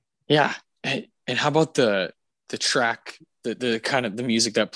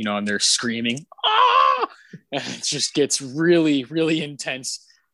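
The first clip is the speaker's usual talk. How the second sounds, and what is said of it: Nazgul scream impression. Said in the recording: “doing a Nazgul impression. ... That was beautiful.”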